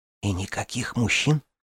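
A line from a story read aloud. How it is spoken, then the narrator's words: Whisper. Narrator (Russian): прошептала я Сенери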